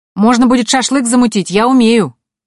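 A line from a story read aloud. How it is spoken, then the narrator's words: Shouting after someone. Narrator (Russian): крикнул нам вслед Лукас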